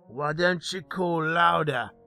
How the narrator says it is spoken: he grumbled, covering his nose

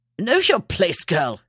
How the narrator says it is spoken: he snapped

